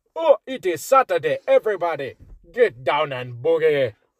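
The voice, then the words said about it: Poor put-on Zimbabwean accent. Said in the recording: “That's like the most un-Zimbabwe accent ever.”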